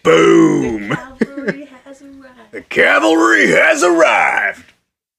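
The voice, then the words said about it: Texan-tinged clone soldier voice. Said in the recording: “Even his voice... Somehow, he's Texan and clone accent at the same time.”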